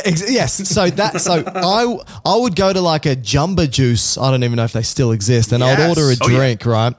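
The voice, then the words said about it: Australian accent with a twang. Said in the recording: “No, I'm Australian. So think about my accent ... Everything's got a twang to us ... we sound very lazy in the way we speak. We don't emphasize particular words very much”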